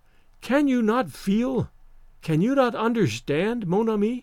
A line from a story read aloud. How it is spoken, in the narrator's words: she said calmly